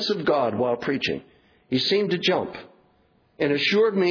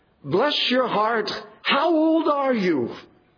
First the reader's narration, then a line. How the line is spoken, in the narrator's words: an aged voice cried out